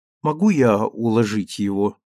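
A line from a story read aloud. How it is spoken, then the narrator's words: Timid question. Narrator (Russian): робко спросила она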